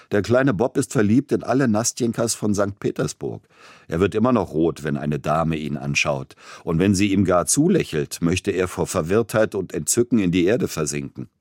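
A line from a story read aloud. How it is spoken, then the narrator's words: Laughing young voice. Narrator (German): Einer seiner jungen Freunde sagte lachend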